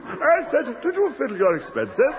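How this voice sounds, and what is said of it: Silly put-on voice. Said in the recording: “you're using a bloody silly voice”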